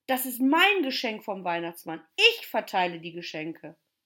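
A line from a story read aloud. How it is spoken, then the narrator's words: Calling out. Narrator (German): rief er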